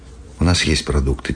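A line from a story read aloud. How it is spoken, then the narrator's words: Quiet, youngest speaker. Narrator (Russian): тихо сказал младший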